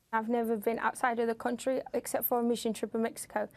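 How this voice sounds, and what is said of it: British-sounding foreign accent. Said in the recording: “foreign accent syndrome ... at some point, she was British ... That's an accent I could live with”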